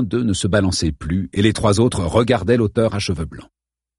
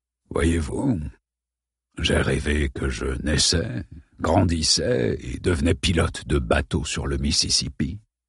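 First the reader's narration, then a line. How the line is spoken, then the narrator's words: Barely above a whisper. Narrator (French): poursuivit-il d'une voix pas plus forte qu'un murmure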